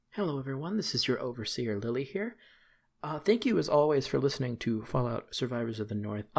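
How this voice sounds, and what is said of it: Slightly raspy voice. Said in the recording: “my voice is a little bit raspy, ... I did just spend the last 2 hours recording the song”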